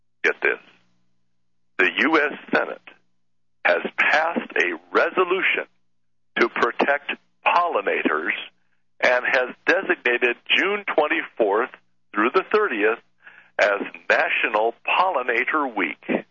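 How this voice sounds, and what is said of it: Formal announcer voice. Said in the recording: “put on the proper voice ... so that I am a proper announcement”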